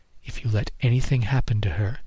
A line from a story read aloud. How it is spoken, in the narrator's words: she whispered in my ear